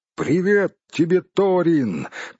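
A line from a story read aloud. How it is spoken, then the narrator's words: Shouted. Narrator (Russian): крикнул он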